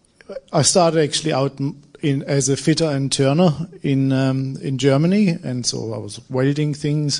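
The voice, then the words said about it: German accent. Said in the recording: “I'm German with this accent”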